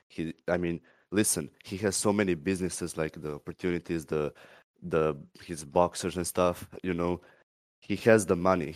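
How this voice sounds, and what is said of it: Croatian-accented English. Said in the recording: “I like your accent. ... Croatia.”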